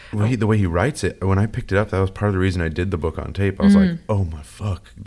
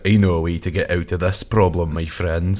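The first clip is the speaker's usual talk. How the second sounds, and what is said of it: Heavy Scottish accent. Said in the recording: “heavy Scottish accent”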